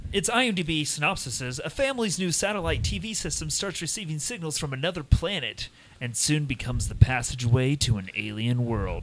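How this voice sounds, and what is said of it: 80s radio DJ voice. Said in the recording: “your, like, DJ voice? ... 80s DJ voice ... the movie announcer voice”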